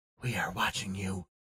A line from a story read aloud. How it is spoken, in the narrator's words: the eyes whispered